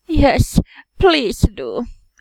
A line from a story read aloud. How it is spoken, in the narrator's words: Eren pleaded